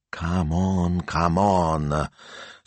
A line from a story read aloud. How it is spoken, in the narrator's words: Signor Speranza muttered